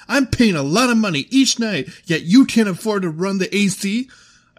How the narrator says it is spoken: I screamed this at the top of my lungs, filling the entire lobby with my bitch voice

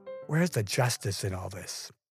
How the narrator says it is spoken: Bruce, muttering

